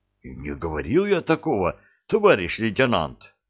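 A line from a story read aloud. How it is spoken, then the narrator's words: Frightened denial. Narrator (Russian): Испуганно помотал головой кожухарь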